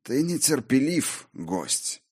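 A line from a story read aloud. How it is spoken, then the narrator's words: Stern, frowning. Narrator (Russian): нахмурился владыка Асгарда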